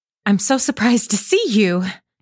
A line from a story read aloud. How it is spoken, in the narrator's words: stammered Meg, feeling that she was in for a lecture now